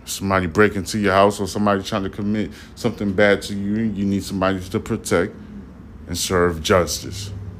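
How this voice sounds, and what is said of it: Slightly slurred, accented speech. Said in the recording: “I'm a little bit slurred ... my accent is kind of like messing up the vibes of you comprehending what I'm saying”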